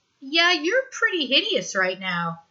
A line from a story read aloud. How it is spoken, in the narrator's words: in a cheerful tone